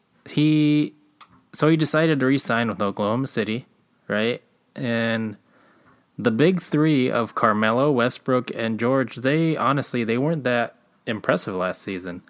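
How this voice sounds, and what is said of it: Congested, stuffy-nosed voice. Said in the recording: “I sound a little bit weird ... my nose is all stuffed ... I sound weird”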